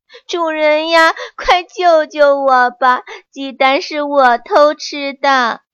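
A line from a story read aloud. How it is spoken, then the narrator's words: Wailing, sobbing. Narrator (Chinese): 他哇哇大哭起来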